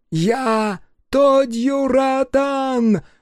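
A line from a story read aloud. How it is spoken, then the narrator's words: Hoarse, wild shout. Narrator (Russian): выкрикнул Тодью из густой завесы дыма голосом хриплым и диким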